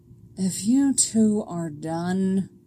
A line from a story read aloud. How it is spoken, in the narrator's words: Alana grumbles